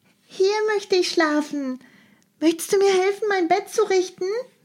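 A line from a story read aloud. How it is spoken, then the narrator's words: Calling down. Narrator (German): rief sie hinunter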